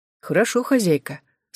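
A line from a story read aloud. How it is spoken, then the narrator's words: Calm. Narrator (Russian): спокойно ответила Морти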